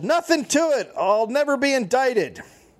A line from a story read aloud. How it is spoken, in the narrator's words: Pressed more, he yelled